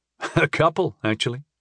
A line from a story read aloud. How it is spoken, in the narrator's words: I chuckled